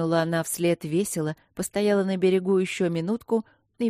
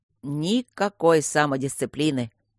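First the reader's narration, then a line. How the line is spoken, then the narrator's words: Grumbling. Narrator (Russian): бурчало его змейшество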